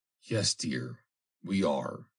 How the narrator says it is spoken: he answered tenderly

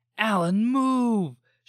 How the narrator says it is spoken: shouted Ellie

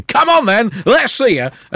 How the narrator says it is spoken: to stand on the White Cliffs of Dover shouting

